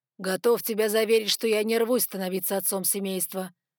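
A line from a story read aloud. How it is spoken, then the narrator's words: Gloomy reply. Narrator (Russian): мрачно ответил Ноа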